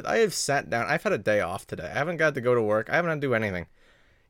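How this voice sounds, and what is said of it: Out of breath. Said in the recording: “Why am I out of breath? ... I am just out of breath.”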